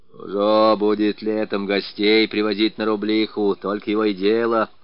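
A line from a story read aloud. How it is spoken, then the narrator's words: Grumbling old man, jealous. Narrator (Russian): ворчал старик, ревновавший свою шахту к каждому постороннему глазу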